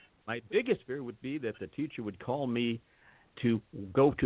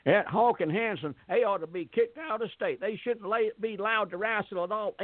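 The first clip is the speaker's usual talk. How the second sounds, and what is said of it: Put-on North Carolina accent. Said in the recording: “this was in North Carolina, so I can do the accent for you”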